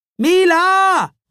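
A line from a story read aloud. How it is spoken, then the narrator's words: Calling. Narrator (German): rief er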